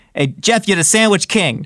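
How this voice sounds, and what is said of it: Bobby Flay impression, New York accent. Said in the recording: “Bobby Flay ... he's got that New York accent.”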